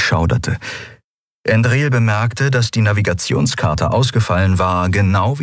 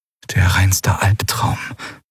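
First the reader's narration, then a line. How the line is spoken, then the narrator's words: Whispering. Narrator (German): flüsterte Lien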